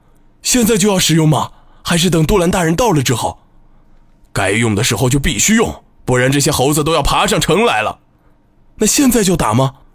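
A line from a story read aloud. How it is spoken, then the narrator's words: Confirming again. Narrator (Chinese): 博古多再一次确认道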